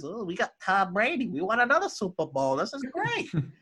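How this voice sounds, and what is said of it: Imitates another person's voice. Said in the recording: “that your impersonation of Mason?”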